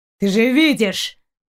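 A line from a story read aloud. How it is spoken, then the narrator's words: Growling. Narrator (Russian): прорычал Далок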